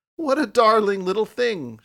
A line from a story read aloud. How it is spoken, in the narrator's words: she cried